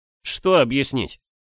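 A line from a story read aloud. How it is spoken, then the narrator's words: Irritated, curt. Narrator (Russian): раздраженно бросил я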